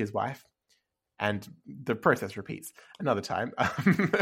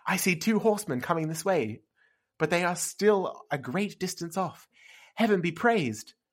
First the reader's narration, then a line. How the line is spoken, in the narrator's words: she exclaimed